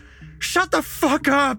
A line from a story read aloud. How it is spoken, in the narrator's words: Jesse wailed, his voice trembling